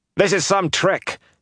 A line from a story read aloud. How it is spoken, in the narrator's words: Charondin shouted